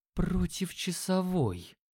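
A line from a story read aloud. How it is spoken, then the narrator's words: Astonished whisper. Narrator (Russian): пораженно прошептал Дима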